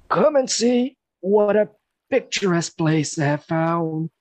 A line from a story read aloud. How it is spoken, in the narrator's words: he exclaimed happily